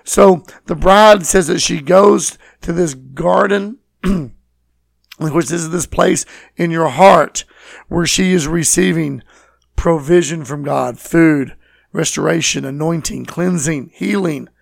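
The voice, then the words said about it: Speaks with a noticeable accent. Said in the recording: “which I'm slaughtering with my accent”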